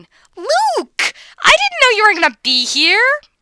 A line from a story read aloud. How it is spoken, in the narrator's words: Caitlin gleefully shrieking